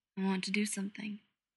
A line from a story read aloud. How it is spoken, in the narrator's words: Lex says softly